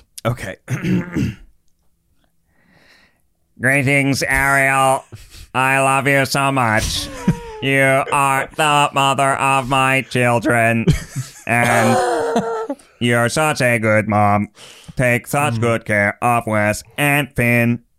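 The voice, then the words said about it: Robot voice. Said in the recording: “in a robot voice”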